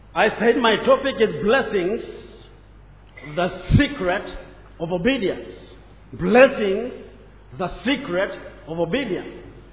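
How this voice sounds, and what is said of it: African accent. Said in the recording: “My accent is African”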